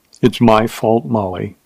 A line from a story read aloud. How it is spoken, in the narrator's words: he said softly